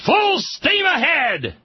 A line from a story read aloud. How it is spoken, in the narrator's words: the boys in the engine room shouted